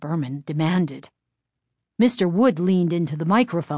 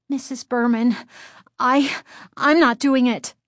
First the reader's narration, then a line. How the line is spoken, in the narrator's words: Chris stammered